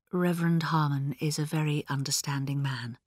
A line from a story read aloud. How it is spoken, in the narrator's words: said quietly